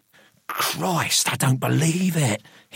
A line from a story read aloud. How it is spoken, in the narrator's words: hissed Gregory